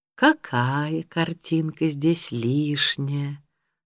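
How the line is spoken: Sweet-voiced question. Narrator (Russian): сладким голосом спросила пожилая дама

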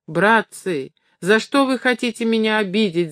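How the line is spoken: Desperate wail. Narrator (Russian): завопил несчастный владелец щеголихи таким отчаянным голосом

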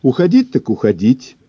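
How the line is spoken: Overly cheerful. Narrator (Russian): чересчур бодро проговорила Эля

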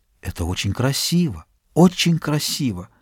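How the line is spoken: Whisper. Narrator (Russian): Слышался шепот

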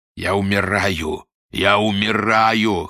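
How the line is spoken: Wheezing through window. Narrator (Russian): хрипел ему Рубин в форточку

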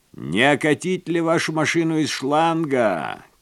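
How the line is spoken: Young man shouting. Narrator (Russian): крикнул паренек с заправочной станции

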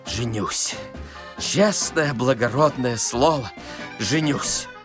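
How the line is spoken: Muttering. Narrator (Russian): Он бормотал

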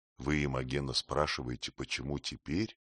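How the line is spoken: Quiet, close. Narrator (Russian): Танкред, нагибаясь к ней близко, говорил тихо

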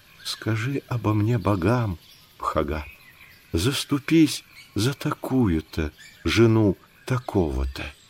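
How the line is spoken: Barely audible pleading whisper. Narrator (Russian): она еле слышно шепотом просила

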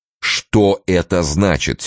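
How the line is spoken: Angry repetition. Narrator (Russian): сердито повторил Турбин

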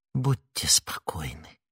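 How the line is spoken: Whisper. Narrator (Russian): прошептала Миледи

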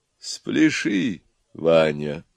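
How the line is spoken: Soft and tender. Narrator (Russian): тихо и ласково сказала самая умная голова

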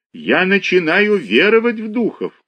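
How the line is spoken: Shout. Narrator (Russian): крикнул он мне

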